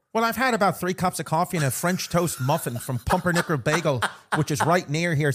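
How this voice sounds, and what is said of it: Put-on Irish accent. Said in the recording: “How good are our Irish accents? ... Your accent has been shockingly good”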